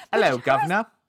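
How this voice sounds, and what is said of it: Poor put-on British accent. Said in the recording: “Americans can't do British accents ... And shouldn't do British accents ... My accent may be worse than Dick Van Dyke's and Mary Poppins”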